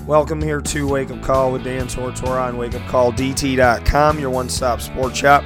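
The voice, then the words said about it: Hoarse, cracking, partly lost voice. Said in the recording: “I apologize for my voice this morning ... I kind of lost my voice ... it kind of comes and goes ... if I sound like I'm going through puberty, so to speak, with my voice right now”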